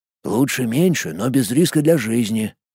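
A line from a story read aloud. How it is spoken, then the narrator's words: Whisper. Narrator (Russian): прошептал Сергей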